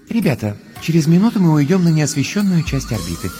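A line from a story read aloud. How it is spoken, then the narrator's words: Gentle voice through speakers. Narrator (Russian): нежным голосом напоминает из динамиков скафандра Астрид Йенсен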